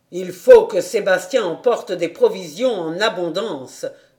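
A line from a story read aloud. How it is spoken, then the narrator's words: Shouted. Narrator (French): cria M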